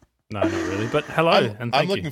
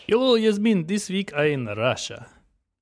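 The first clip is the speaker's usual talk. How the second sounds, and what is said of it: Put-on Russian-style accent. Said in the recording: “I was looking forward to hearing you keep that accent up for the next hour.”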